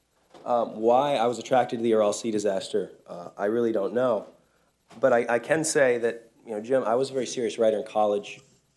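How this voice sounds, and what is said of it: Squeaky voice from a bad cold. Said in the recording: “that little squeak my voice just did, I have a very bad cold”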